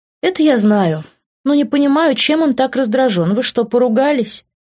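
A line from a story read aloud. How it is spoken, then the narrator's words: Sighing question. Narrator (Russian): Вздохнув, спросила она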